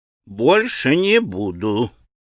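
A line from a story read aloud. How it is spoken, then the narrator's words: Muttering with a grunt. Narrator (Russian): пробормотал он, крякнув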